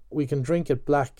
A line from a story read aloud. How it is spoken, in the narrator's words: Stephen said